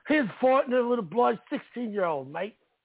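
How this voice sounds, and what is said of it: Bad put-on Australian accent. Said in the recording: “Is that a terrible accent? ... I didn't know he was Australian”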